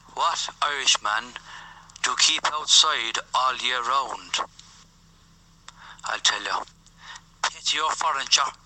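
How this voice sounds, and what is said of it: Put-on Irish accent. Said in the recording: “I think he's just doing an Irish accent.”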